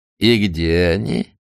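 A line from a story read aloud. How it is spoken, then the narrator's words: Ingratiating question. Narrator (Russian): вкрадчиво спросил Азерафель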